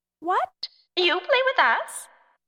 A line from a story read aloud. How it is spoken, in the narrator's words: the tiny creatures squealed with laughter